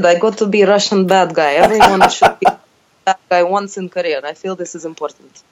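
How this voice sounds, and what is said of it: Put-on Russian accent. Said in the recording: “you got to put on a Russian accent”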